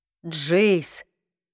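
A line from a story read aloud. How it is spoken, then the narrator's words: Very quiet. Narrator (Russian): очень тихо произнес Ходж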